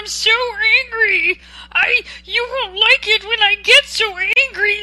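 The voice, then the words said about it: Silly Marvin the Martian cartoon voice. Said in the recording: “that's my silly imitation of Marvin the Martian”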